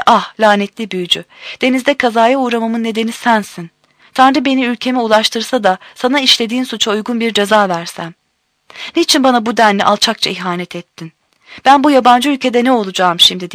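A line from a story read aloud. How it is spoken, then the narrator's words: Cried out. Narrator (Turkish): diye haykırmış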